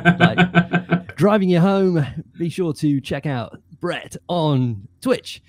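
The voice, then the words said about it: Afternoon radio host voice. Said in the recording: “I feel like I'm doing sort of an afternoon radio show now ... Banging radio voice”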